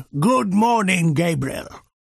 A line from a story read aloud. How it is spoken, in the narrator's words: he boomed